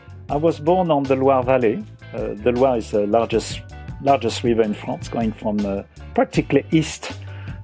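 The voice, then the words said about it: French accent. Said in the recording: “speak with a French accent ... by your accent”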